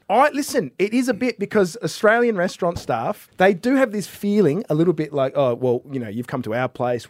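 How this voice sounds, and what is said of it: Australian accent. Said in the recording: “People will hear the Australian accent”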